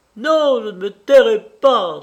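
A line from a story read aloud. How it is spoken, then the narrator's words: Exclaiming. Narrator (French): s'écria Edda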